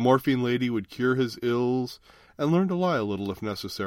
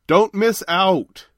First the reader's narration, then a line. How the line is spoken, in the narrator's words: shouted Kent